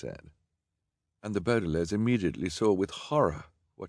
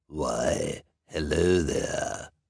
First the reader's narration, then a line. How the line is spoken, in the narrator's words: the first one said in a sinister voice